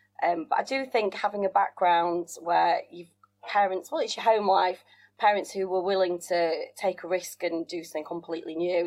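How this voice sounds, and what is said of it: Northern English accent. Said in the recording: “from my accent, lots of people assume I'm born and bred a northerner”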